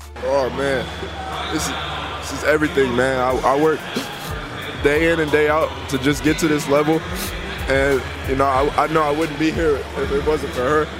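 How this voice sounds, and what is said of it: Emotional, choked-up speech. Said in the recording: “he got a little emotional”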